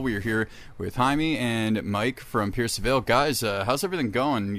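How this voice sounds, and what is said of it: Polished radio announcer voice. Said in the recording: “you have an amazing radio voice ... Good with the radio voice ... that was pro”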